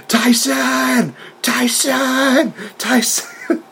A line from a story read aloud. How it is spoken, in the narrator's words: Jericho's doing, he's just screaming